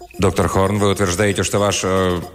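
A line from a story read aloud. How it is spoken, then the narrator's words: Formal official tone. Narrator (Russian): Я официальным тоном заявил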